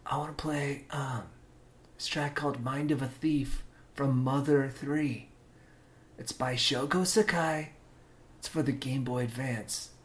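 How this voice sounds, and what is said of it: Whispering. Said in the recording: “You gotta whisper,”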